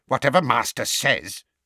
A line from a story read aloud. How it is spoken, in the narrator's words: he muttered furiously